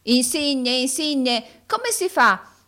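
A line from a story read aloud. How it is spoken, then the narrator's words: Shouted. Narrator (Italian): gridò Carlo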